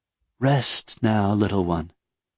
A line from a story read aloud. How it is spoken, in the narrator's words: the Elantrian said in a warm voice